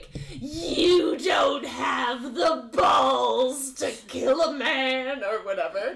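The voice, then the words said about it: Imitates a TV character's voice. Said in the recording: “great Alice impression. ... I do a pretty good Alice.”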